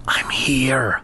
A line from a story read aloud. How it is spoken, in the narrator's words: Lefty whispered back